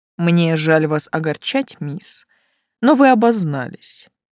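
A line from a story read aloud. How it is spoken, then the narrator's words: Cold, smiling, inspector. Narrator (Russian): холодно улыбнулся контролер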